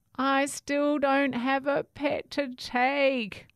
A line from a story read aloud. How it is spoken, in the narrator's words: cried Herbert